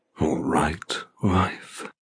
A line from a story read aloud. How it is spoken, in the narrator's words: He rasps seductively